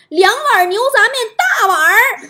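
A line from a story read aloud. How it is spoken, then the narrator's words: Shouting an order. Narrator (Chinese): 搁家这货冲老板喊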